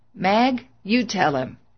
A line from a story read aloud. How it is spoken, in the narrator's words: Too feeble to recall, William Hall wheezed